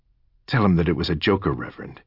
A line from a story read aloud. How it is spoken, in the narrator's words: Fleur snapped coldly